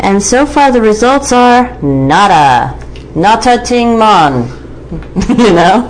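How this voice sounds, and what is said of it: Weak put-on accent. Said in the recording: “That was pretty pitiful. ... No, I meant your accent.”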